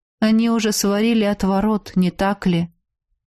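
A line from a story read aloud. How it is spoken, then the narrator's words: Calmed, sad question. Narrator (Russian): Вдруг успокоившись, грустно спросил Василиск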